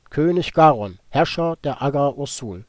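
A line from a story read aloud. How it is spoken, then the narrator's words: Clear tone. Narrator (German): der Tiner sagte mit klarem Ton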